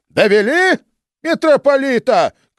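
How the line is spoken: Shouted. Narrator (Russian): крикнул Иоанн

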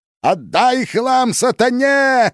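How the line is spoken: Yelling. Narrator (Russian): вопил он

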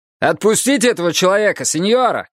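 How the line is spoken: Shouted. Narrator (Russian): крикнул один

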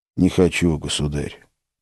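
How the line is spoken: Submissive sigh. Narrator (Russian): покорно вздохнул Филипп

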